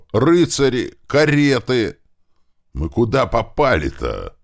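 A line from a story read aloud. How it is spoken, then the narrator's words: Joyful shout. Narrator (Russian): радостно кричал он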